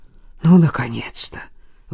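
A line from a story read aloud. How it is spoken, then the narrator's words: Relieved breath. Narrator (Russian): выдохнул Илья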